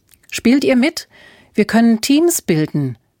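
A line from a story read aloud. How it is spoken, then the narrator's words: Calling out. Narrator (German): rief Alfred ihnen zu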